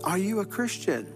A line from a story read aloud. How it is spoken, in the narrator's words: the parachutist yells down and says